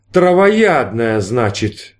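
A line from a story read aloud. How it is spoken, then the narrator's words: Bitter drawl. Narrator (Russian): с горечью протянул Мишкин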